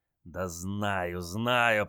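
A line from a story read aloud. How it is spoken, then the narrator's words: Drawn-out drawl. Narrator (Russian): протянул генерал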